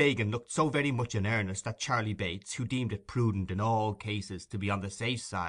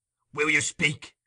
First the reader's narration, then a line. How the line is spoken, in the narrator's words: thundered the Jew